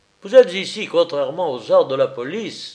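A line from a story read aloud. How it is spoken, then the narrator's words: Dry. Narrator (French): dis-je sèchement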